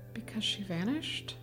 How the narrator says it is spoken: I whispered

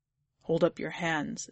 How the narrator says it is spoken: says Yestrel quietly

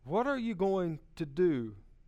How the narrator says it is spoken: asked the carpenter

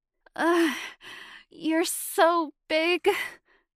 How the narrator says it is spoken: Shayna said breathlessly

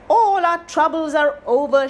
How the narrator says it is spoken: cried

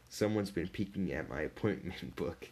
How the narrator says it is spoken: muttered

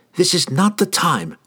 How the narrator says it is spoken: she snapped

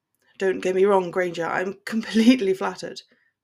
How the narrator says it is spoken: he answered with a laugh

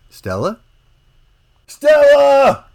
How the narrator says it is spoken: cried Bert

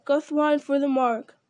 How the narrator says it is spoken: cried Eomer

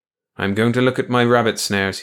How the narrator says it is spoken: he said

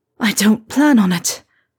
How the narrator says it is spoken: Harry said, gasping

